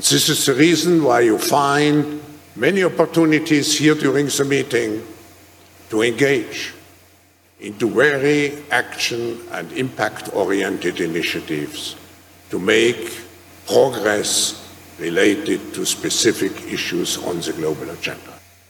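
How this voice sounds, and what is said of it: Bond villain-like foreign accent. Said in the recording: “that fake friggin' accent ... That Bond villain accent”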